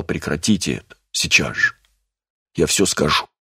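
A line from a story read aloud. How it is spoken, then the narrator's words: Whispering. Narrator (Russian): Роган прошептал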